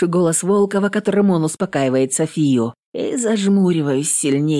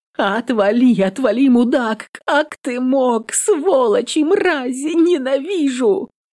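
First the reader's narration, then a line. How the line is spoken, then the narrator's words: Sobbing. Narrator (Russian): Всхлипывает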